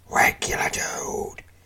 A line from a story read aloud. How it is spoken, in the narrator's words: a harsh whisper from behind the oaken door